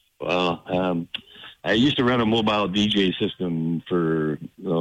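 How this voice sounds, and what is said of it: Usual voice. Nothing is said of it.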